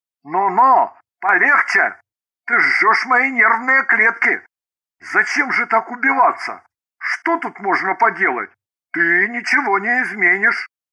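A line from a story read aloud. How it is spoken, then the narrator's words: Hoarse reply. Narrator (Russian): Ганин хрипло ответил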